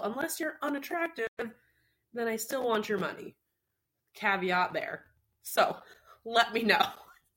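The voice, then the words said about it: Voice sounds rough and strained. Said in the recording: “my voice is not sounding particularly great ... not have a couple days of binge drinking 2 days in a row”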